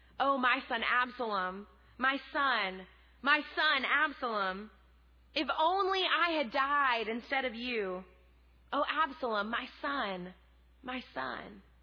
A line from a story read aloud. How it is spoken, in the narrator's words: he cried